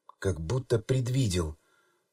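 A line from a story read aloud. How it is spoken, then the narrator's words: Reverent whisper. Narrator (Russian): благоговейно прошептала кошка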